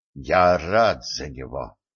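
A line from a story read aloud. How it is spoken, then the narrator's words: Relieved exhale. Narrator (Russian): облегченно выдохнул Эльгард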